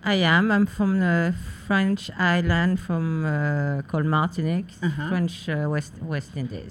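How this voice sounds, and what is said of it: French Caribbean accent. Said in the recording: “You have this amazing accent. So I'm going to say you're probably from one of the French colonies.”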